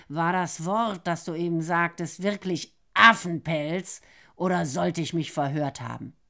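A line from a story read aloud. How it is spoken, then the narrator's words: Growled. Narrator (German): Nero lockerte den Biss ein wenig und knurrte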